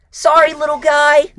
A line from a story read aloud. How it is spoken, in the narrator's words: Roach shouted